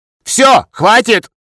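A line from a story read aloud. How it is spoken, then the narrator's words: Sudden sharp loud bark. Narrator (Russian): неожиданно резко и громко рявкнул Щупло Черновский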